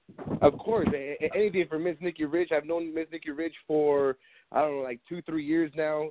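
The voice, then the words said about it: Stuffy, congested nasal voice. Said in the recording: “I'm a little under the weather, so if I'm, my nose is my voice is kind of stuffy”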